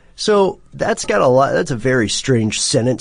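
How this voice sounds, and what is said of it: Usual voice. Nothing is said of it.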